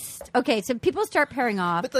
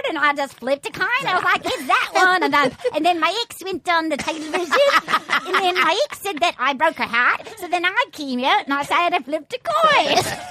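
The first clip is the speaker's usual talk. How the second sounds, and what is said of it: Put-on Irish leprechaun accent. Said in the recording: “You sound like a leprechaun. ... Do you look at the Irish? ... Can you believe how good I am at accents?”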